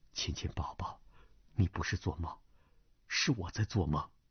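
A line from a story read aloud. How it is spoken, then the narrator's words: Whispered in ear. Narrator (Chinese): 段正淳在他耳边低声道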